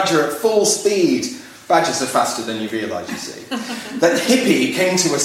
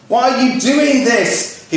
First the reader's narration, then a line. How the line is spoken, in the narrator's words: Hippy cried